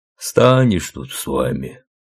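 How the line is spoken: Grumbling driver. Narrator (Russian): проворчал джиповод

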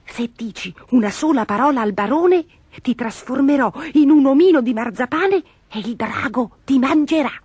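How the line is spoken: Whispered into ear. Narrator (Italian): Gobolino le bisbigliò all'orecchio

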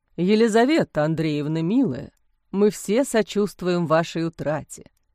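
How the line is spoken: Deep bass voice. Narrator (Russian): густым басом произнес … довольно молодой священник

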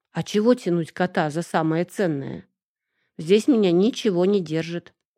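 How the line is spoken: Sigh. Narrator (Russian): вздохнула я

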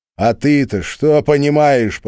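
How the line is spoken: Nearly shouting. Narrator (Russian): почти закричал Глеб

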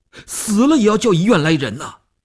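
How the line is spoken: Tense, nearly shouting. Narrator (Chinese): 吴长天头皮一紧，他几乎要喊起来

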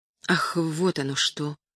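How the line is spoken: Muttered. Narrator (Russian): пробормотал Артур

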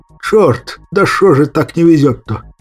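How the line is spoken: Weary cursing. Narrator (Russian): Я устало выругался

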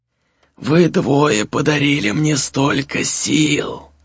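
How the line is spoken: Hoarse drawling repulsive voice. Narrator (Russian): сказал он сиплым тягучим голосом, таким же отталкивающим, как и его обличье

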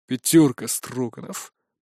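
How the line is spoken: Grumbling. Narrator (Russian): проворчал он

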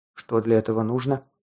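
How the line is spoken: Quiet question. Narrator (Russian): тихо спросил

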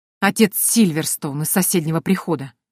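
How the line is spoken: Angry, through clenched teeth. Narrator (Russian): зло процедил Рон

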